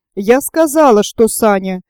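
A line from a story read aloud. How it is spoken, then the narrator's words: Angry female objection. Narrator (Russian): сердито возразила телефонистка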